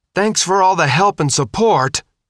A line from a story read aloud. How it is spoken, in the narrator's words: she screamed